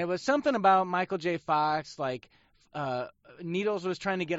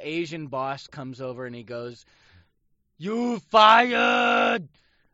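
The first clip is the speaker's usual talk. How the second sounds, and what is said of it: Poor imitation of another person's voice. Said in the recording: “Well, that was more Arnold. That was not a very good impression ... that really was more Arnold.”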